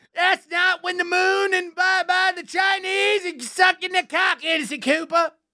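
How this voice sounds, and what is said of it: Imitates another person's voice. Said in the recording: “That's my Kennedy impression.”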